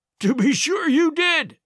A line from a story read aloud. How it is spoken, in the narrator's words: he cried